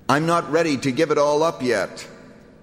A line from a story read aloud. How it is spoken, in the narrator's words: And he shouted back